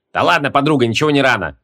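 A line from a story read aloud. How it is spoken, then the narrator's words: Amused snort. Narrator (Russian): хмыкнул Логмер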